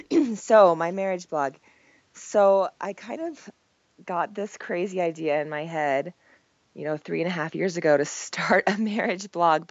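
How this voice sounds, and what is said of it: Croaky, hoarse voice from a cold. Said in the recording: “I have a cold, so my voice is super croaky and I kind of sound like a man”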